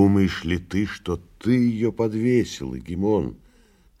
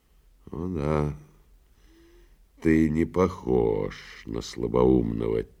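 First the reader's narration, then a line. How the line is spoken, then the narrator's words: Quiet reply. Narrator (Russian): тихо ответил прокуратор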